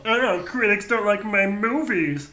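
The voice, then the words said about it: Imitates another person's voice. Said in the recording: “did a Patrick Mahomes impression”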